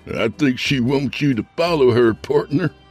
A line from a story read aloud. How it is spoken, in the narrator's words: somebody said, chuckling